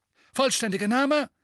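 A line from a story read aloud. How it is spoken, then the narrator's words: Loud. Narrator (German): sagte laut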